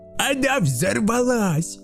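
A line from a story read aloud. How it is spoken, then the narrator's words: Delighted shout. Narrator (Russian): В восторге закричал Карлсон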